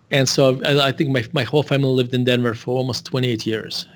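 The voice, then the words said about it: Russian accent. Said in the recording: “as you can tell from my accent... I was born in Russia”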